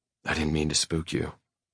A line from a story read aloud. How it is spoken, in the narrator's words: I whisper